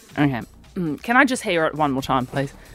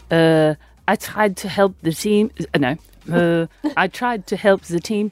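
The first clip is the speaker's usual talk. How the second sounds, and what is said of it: Attempted German accent. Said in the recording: “Lise's German accent ... this is a European accent. ... It's not going to sound good”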